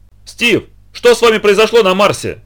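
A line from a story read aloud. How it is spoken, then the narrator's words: Shouting. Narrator (Russian): прокричал Нельсон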